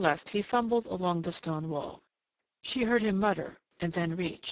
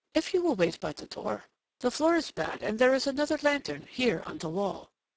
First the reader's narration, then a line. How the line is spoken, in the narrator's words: He said very quickly to her in Turkish